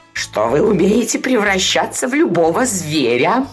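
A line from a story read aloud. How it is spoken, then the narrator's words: Cat purring speech. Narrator (Russian): промурлыкал кот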